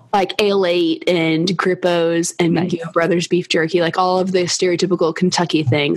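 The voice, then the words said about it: Kentucky accent. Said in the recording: “I'm from Kentucky, which you may have noticed some with my accent”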